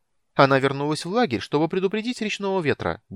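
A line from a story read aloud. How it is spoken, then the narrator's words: Brisk cheerful announcement. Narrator (Russian): бодро сообщил Тасельхов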